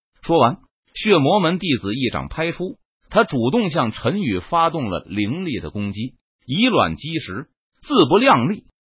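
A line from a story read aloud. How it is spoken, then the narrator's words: Cold. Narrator (Chinese): 冷声说道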